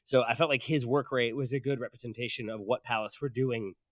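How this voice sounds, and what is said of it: Strained, fading voice. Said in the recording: “Sorry, I'm losing my voice consistently here.”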